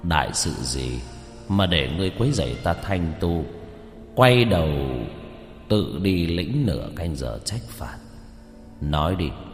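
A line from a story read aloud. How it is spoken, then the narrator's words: Cold, stern Taoist. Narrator (Vietnamese): Mày kiếm của đạo sĩ dựng lên lạnh lùng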